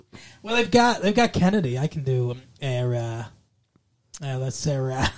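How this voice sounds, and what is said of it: Put-on Boston accent. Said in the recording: “So the Boston accent would be like”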